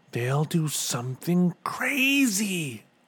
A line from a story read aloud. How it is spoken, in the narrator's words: whispered Bartholomew